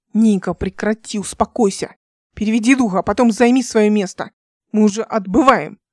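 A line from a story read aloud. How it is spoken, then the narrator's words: Barked. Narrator (Russian): рявкнул Алик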